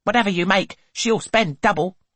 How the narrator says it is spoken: snaps Mrs

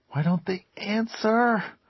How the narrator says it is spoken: Bobby whispered fiercely

